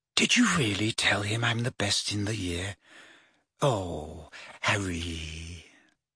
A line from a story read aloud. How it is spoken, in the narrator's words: Hermione turned to Harry with a radiant face and whispered